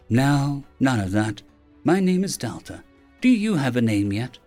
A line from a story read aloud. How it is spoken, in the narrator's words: she asked kindly